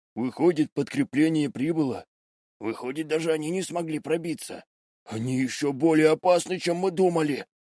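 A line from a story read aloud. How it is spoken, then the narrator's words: Muttering soldiers. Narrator (Russian): Бормотали трое пленных вояк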